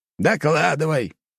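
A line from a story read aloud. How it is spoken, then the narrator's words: Barked in unison. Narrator (Russian): рявкнули в один голос отец и сын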